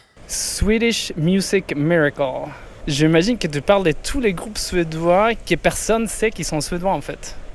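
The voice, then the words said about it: Swedish accent in French. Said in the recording (French): “Avec son plus bel accent ... je suis suédois”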